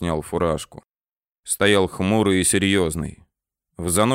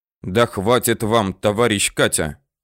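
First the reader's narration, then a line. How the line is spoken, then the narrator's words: Sudden, angry. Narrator (Russian): Вдруг как-то зло сказал Тыжных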